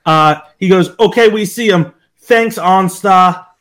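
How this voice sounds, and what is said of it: Heavy exaggerated Boston accent. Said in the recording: “the guy with the most aggressive Boston accent. ... It's just such an aggressive accent.”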